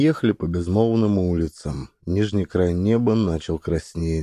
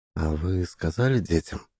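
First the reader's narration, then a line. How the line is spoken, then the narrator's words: Quiet inquiry. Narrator (Russian): негромко осведомился сосед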